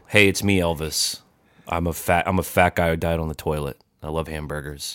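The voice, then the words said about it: Deliberately boring, flat impression. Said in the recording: “My impersonation was going to be me just sort of boringly saying ... that's a good impression there”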